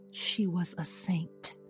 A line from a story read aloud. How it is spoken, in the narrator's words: murmuring